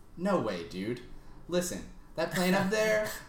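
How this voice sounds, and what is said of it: Good impression of a character's voice. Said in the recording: “That's a really good impression.”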